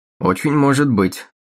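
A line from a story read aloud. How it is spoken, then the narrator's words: Grumbled. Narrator (Russian): проворчал он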